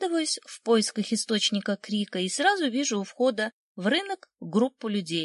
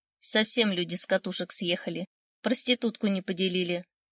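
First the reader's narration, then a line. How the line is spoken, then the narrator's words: Grumbling woman. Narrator (Russian): проворчала женщина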